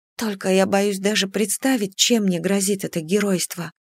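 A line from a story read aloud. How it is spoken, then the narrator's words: Whispered. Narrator (Russian): прошептала я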